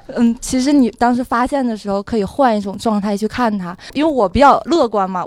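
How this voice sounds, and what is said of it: Northeastern Chinese accent. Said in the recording (Chinese): “你是东北的，就那口音藏不住”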